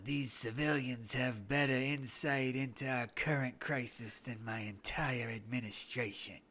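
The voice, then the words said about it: Imitates another person's voice. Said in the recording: “do a good Trump impression ... It didn't sound like Trump to me.”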